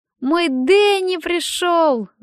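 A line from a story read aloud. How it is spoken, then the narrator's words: Ecstatic shout. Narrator (Russian): закричал он, прыгая от восторга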